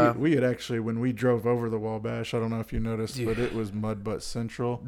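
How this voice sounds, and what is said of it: Usual voice. Nothing is said of it.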